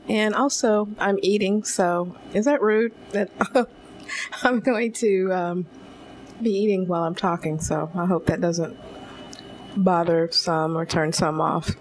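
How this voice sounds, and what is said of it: Slightly hoarse voice. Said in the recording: “Apologize for my voice, too. I have had some allergy problems that have impacted my voice, and so it's a little hoarse ... just might sound a little funny”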